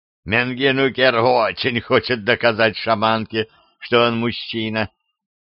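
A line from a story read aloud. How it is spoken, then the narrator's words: Laughing. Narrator (Russian): опять засмеялся Девлет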